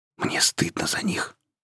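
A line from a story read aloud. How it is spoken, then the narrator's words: Emotional whisper. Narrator (Russian): прошептал разгоряченный чувствами Май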